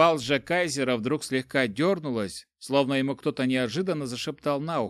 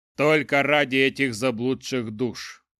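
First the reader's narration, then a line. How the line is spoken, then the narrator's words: Deep bass voice. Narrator (Russian): пробасил лжекайзер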